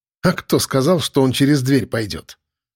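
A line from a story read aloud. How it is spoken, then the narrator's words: Amused grunt. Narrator (Russian): Хмыкнул я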